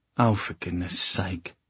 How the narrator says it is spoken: Sophie muttered

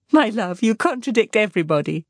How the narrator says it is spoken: said his wife with her usual laugh

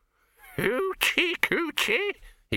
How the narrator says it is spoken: he cackled

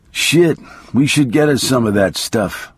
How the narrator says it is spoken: I muttered finally

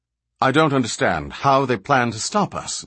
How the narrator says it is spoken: Balinor cut in quickly

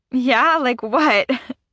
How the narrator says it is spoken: I laugh

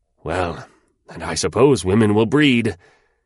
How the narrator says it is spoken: he muttered out of his deep pleasure

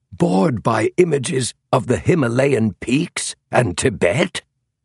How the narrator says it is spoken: cried Clarence King

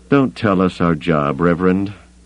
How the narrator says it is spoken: Campbell growled

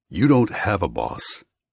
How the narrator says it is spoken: he growls

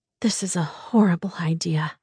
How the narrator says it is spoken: said in a near whisper

